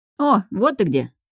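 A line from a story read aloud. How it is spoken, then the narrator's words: Cheerful, close by. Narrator (Russian): весело раздается над ухом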